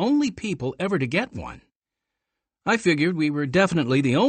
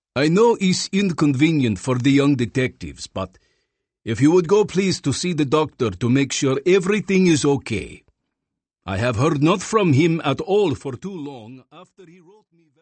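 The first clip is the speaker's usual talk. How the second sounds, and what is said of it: Deep voice, thick Russian accent. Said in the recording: “deep voice and thick Russian accent”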